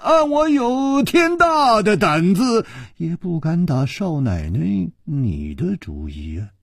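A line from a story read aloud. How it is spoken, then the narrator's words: Sighing. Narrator (Chinese): 楚留香叹了一口气说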